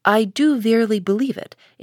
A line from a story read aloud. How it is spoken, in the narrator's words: answered the clergyman